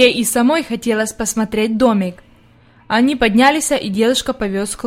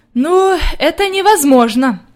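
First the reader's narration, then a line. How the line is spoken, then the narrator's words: Sighing grandmother. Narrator (Russian): вздохнула бабушка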